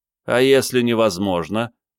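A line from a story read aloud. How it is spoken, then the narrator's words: Snide, from corner. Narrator (Russian): ехидно спросили из угла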